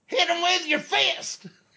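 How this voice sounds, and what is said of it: High-pitched southern old man voice. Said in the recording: “high-pitched southern old man voice”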